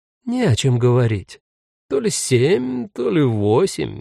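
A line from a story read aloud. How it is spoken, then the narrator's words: Uncertain, frowning. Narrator (Russian): неуверенно хмурится Бьянка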